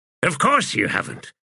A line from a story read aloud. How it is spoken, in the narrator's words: the wizard snapped